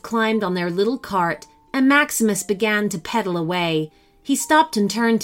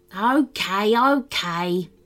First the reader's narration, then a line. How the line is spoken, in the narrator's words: Barnabas sighed